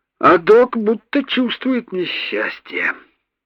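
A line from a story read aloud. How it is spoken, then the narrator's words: Heavy sigh. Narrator (Russian): тяжело вздохнул Бубин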